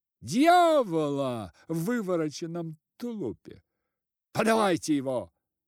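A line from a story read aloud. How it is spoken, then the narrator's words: Official shouting. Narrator (Russian): закричал голова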